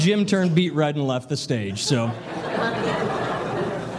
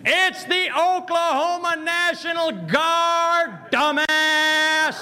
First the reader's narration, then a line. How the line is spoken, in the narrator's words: 250-pound staff sergeant of all muscle just shouted out from the back of the room